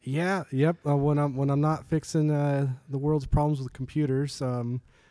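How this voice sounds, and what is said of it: Usual voice. Nothing is said of it.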